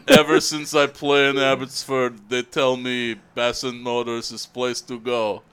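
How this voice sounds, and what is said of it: Put-on Russian-Finnish accent. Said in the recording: “doing a Russian accent ... There was a little bit of Finnish in there.”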